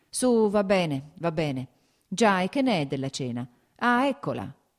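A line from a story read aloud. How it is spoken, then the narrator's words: Exclaiming. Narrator (Italian): esclamò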